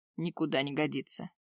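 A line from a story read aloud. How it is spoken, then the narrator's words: Werewolf's grumble. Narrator (Russian): проворчал на это оборотень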